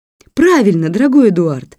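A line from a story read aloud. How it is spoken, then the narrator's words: Exclaiming. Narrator (Russian): воскликнула леди Элен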